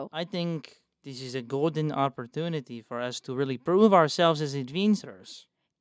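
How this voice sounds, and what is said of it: Vague European, Russian-like character accent. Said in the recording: “I keep losing her accent. I can't figure out what the fuck it is. ... be Russian again ... Be vague fucking, European.”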